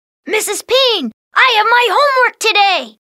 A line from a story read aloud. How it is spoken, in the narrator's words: Martin said excitedly